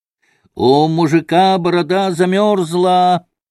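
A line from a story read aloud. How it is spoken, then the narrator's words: Loud taunting shout. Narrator (Russian): громко и задирчиво крикнул Коля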